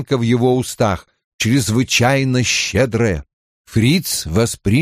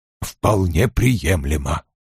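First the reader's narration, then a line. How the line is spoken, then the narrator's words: Distinct mutter. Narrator (Russian): Вульф отчетливо пробурчал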